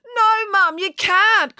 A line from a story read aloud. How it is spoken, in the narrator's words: cried Daisy